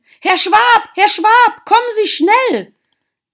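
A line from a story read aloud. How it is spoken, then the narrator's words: Sudden call. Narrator (German): rief plötzlich jemand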